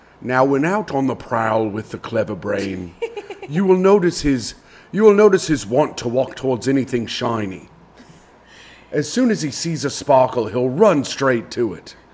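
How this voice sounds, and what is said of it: Put-on documentary narrator accent. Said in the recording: “you'll do any accent to not be the victim in this game we're playing”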